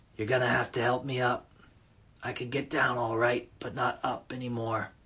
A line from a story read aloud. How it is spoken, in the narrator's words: she whispered